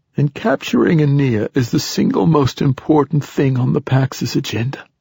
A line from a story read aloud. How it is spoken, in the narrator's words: rasped the old poet